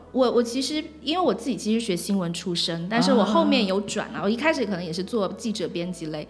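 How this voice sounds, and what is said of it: Mainland Chinese Mandarin accent. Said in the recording (Chinese): “大家听我口音就知道我不是台湾人...我是大陆人”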